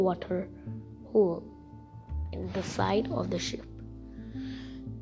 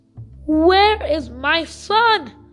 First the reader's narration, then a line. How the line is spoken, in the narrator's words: roared Samuel's father